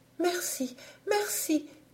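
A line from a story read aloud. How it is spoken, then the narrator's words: Exclaiming with gratitude. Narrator (French): s'écrie avec un transport de gratitude la princesse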